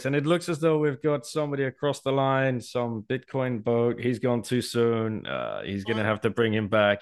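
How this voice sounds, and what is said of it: Sports race commentator voice. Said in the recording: “I can hear the commentary in my voice”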